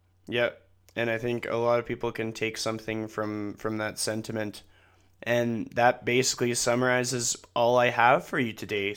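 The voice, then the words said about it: Voice slightly off, coughing. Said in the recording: “I have a little bit of a cough. My voice sounds a little bit off”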